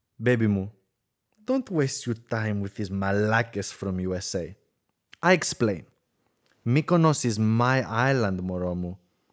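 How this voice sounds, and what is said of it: Very strong put-on Greek accent. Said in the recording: “I'm going to do it in a very, very strong Greek accent.”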